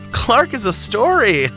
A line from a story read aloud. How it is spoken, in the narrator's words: the nurse chuckled